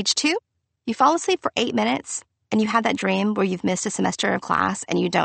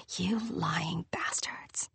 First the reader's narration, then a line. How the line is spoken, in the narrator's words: whispering